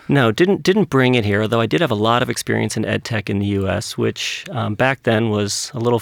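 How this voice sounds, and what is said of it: New York American accent. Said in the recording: “You can probably tell by my accent, I'm actually not originally from here. Grew up in New York”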